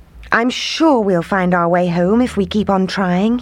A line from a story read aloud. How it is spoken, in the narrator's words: he said